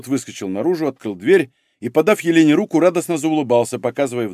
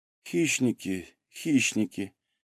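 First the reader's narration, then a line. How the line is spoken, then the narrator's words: Quiet muttering. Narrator (Russian): тихо пробормотала Елена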